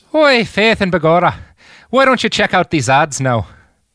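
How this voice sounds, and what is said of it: Put-on Irish accent. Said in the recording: “I could do a pretty good Irish accent ... Yeah, do an Irish. Go to an ad break Irish. ... No, that was so good!”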